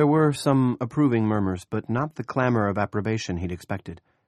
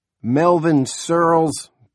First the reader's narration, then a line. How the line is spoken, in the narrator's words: Big Jim boomed